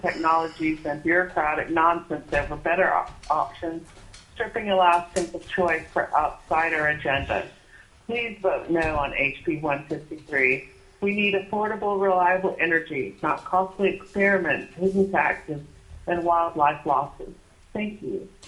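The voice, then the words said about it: Muffled, congested voice from cold. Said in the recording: “you came in a little muffled ... I have a cold.”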